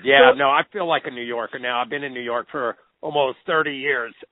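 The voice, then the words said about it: Oklahoma accent. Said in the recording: “I still have the Oklahoma accent”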